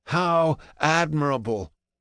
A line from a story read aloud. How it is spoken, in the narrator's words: Seneca chuckles